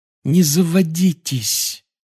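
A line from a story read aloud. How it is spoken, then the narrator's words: Pleading. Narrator (Russian): взмолилась Гермиона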